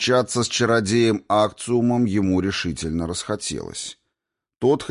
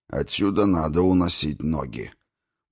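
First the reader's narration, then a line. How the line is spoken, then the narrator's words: Dwarf speaking through teeth. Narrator (Russian): Процедил сквозь зубы гном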